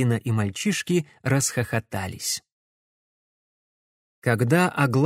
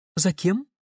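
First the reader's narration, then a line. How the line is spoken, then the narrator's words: Calm question. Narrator (Russian): спокойно спросил Матвей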